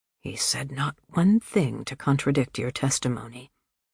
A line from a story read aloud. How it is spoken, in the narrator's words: Conrad Belmont whisper